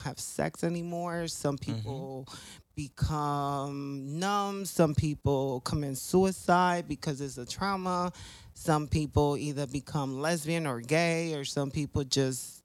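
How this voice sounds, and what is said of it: Spanish-accented English. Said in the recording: “Spanglish... My accent, okay?”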